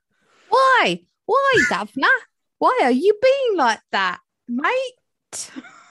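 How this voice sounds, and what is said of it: Bad Oliver Twist-style accent. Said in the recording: “You sound like you're auditioning for Oliver Twist, like a really crappy school play version of it.”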